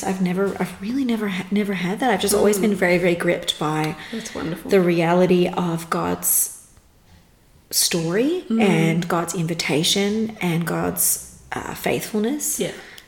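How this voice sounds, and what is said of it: Slight North American accent. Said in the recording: “your accent sounds slightly North American”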